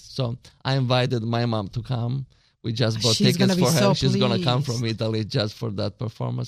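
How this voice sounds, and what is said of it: Italian accent. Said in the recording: “I love your accent. That's so lovely.”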